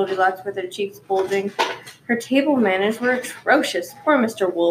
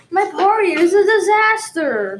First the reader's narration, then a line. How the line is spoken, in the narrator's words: he cried